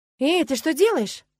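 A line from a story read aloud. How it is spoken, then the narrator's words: Exclaiming. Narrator (Russian): воскликнула Агнеса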